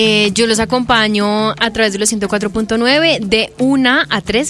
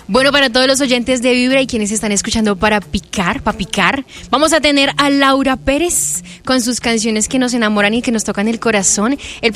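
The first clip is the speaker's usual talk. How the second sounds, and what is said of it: Radio announcer voice. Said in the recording (Spanish): “en tu voz de locutora”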